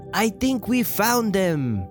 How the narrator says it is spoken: The magic lamp Lumiere exclaimed

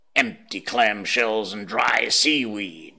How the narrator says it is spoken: snorted Sea Catch

